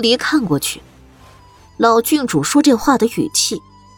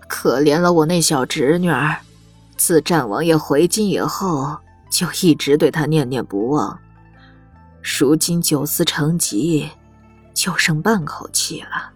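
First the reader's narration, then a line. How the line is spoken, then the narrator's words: Sighing old woman. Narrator (Chinese): 一个老郡主叹了口气，出声道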